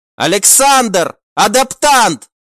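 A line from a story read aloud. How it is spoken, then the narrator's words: Sudden startled shout. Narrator (Russian): выкрикнула Альвийка, почувствовав резкий рывок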